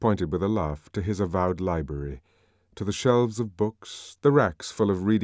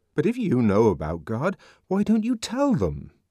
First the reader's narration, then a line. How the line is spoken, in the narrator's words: asked the savage indignantly